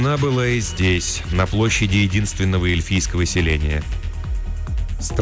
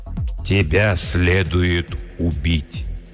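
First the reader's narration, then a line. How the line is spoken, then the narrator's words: Slow, lordly. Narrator (Russian): медленно произнес владыка Лориэна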